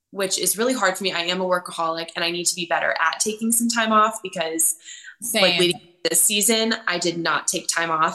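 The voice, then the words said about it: Sounds sick. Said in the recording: “I sound sick”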